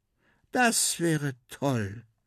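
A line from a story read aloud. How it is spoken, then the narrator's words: Girl sighing. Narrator (German): seufzt das Mädchen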